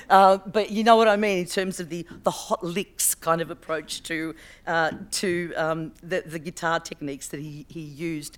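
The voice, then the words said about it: Hoarse, failing voice. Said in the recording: “Sorry, my voice is going.”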